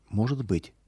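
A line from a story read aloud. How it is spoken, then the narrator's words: Girl speaking quietly. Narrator (Russian): тихо сказала девочка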